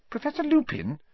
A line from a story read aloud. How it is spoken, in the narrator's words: said Hermione timidly